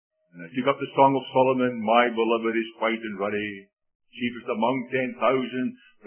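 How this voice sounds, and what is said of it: Scottish accent. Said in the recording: “I'm a man of one language with a Scottish accent.”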